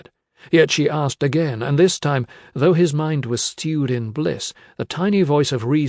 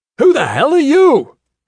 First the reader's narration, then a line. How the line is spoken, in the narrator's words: he yelled